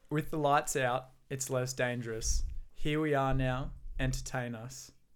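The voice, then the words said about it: Flat monotone recitation. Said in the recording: “I'll keep it as monotone as I can”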